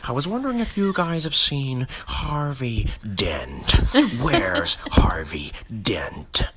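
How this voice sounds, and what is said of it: Impression with weird breaths. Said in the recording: “he's mastered the weird breaths”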